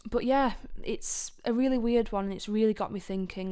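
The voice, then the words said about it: Hoarse, strained voice. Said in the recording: “my voice is actually going. I think I've got a little bit of a sore throat”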